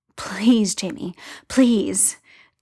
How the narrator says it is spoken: Tyler pants, half mindless with it all

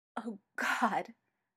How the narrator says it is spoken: Styles says, voice choked

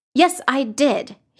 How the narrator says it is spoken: he snapped, cutting her off

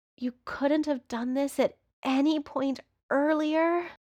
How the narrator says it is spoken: Patrick groans when Johnny starts kissing down his neck

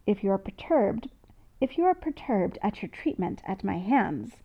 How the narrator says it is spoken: Storick says calmly

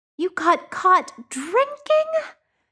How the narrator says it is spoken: wailed Jordan's mom

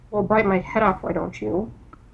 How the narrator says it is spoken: Bones grumbles

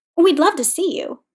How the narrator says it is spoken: he added hastily

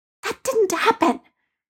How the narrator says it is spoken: Peter hissed at Ned

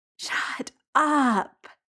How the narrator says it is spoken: Jamie groans

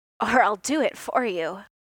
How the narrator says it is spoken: he said, his voice raw and raspy

